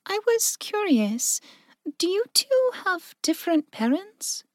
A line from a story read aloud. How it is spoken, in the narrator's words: Mindy asked softly